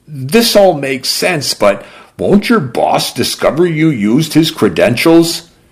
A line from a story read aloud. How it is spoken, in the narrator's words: She laughed a bitter croak